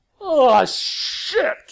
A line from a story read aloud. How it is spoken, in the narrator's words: came a roar